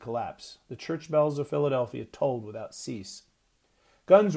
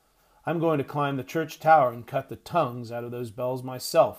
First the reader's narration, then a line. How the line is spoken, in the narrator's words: Eliza grumbled